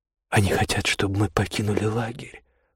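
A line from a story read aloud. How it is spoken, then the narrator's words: Whispered. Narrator (Russian): прошептала Магда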